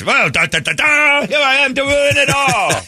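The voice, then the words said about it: Comic character lawyer voice. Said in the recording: “that is my impression of our lawyers”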